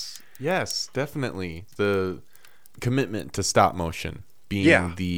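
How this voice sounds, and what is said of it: Usual voice. Nothing is said of it.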